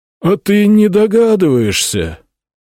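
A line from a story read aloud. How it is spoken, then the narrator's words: Sad question. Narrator (Russian): печально спросил хранитель библиотеки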